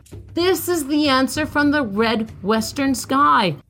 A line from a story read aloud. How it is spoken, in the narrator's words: cried Iktomi